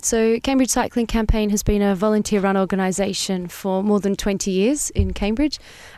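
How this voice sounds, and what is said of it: Australian accent. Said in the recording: “Australia, is that the accent I'm detecting? ... Yes.”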